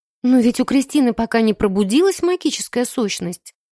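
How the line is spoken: Timid defense. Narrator (Russian): робко заступилась за меня Миломира

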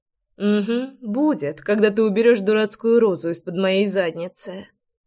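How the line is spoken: Grumbling. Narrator (Russian): проворчала Руслана

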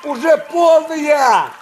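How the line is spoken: Breathless shout. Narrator (Russian): кричал он, тяжело дыша

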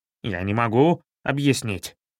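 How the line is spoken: Ferret's mutter. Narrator (Russian): пробормотал хорек

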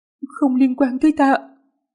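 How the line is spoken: Trembling frightened voice. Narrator (Vietnamese): rung giọng nói

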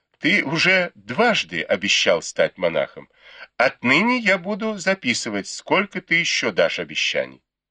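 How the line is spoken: Suppressing laughter. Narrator (Russian): Дай Юй двумя пальцами зажала себе рот, чтобы не рассмеяться, и сказала

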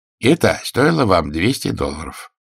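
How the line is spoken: Angry. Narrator (Russian): сказал он сердито

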